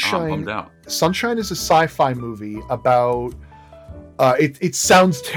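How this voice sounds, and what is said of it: Usual voice. Nothing is said of it.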